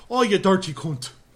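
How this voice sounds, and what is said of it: Put-on Irish accent. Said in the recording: “donning a British accent ... I guess that's more of an Irish accent”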